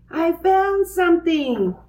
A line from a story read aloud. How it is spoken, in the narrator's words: cried Francine